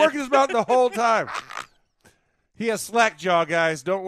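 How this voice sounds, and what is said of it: Usual voice. Nothing is said of it.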